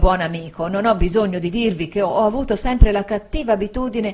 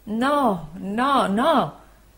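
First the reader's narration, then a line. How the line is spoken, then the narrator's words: Anguished voice. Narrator (Italian): rispose il dottore con voce angosciata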